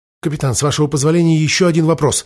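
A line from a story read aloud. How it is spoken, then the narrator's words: Hurried speech. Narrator (Russian): торопливо произнес алхимик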